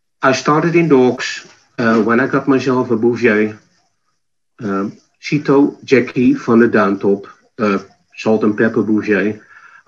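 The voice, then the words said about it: Dutch accent. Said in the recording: “you're obviously from Northern Europe ... My accent is from the Netherlands, of course”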